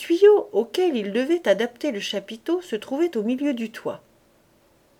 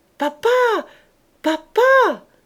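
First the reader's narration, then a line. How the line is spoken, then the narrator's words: Screaming at full strength. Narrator (French): criait-elle de toute sa force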